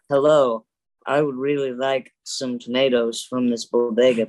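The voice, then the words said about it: Imitates another person's voice, badly. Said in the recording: “bad impression of Keanu Reeves ... That's a really bad impression ... a little bit rough impression of Keanu Reeves”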